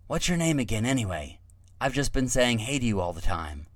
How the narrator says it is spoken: he whispered to Vresh

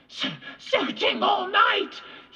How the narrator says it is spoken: he gasped

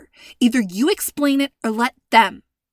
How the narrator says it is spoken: Nadia snapped

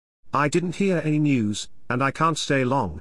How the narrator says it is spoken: Arabella replied, nervously

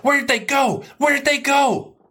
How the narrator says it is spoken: I shouted at Aaron

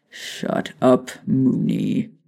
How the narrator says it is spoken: Sirius growled

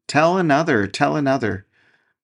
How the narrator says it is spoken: the children clapped their hands and cried

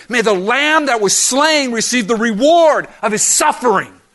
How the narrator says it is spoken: He shouted as loudly as he could

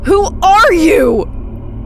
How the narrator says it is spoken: I screamed, facing the closet defiantly

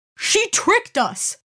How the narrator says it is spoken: the boy cried

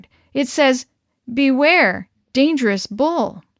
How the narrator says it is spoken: stammered

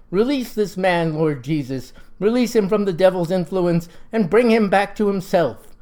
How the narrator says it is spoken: he cried

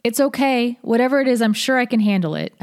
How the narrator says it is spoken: called out

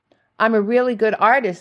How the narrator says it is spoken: exclaimed, hoping to divert the conversation

